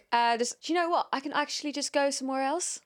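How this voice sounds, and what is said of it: Put-on British London accent. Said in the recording (Dutch): “Maar Brits-Engels ook ... Sounds like Molly Mae ... You sound like someone from London”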